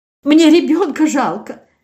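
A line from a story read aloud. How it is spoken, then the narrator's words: Sobbing excuse. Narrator (Russian): всхлипывая, оправдывалась Евгения Семеновна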